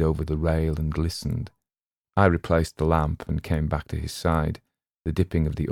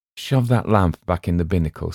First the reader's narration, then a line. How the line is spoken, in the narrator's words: said Will